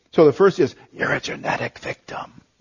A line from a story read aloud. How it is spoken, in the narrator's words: the enemy hisses